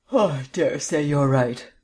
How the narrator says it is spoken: yawned Vance

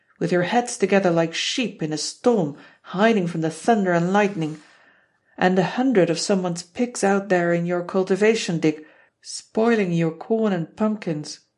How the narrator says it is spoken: Dad will roar

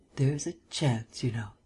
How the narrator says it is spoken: murmured at length

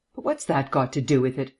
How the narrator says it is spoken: asked irritably

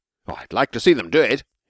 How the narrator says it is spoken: exclaimed the emperor indignantly

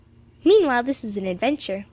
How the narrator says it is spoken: laughed Emily

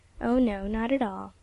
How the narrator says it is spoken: Miss Royal, gently

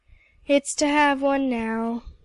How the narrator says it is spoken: said Emily gloomily

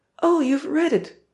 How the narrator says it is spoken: shout triumphantly

